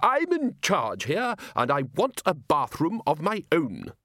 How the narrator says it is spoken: said Ridcully firmly

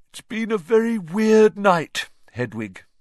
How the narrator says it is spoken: he yawned

